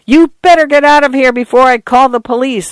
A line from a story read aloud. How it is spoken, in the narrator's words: Arthur yelled